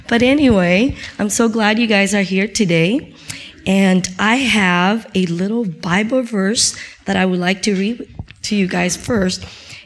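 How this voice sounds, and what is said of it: Weak voice recovering from voice loss. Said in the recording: “my voice is coming back ... I lost my voice. I'm still trying to find it.”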